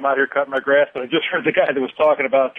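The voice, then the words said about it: Out of breath, breathless speech. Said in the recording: “I'm out of breath.”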